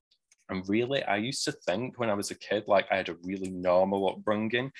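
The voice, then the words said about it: Manchester English accent. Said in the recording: “our very folky accent up here ... don't go too thick with my accent”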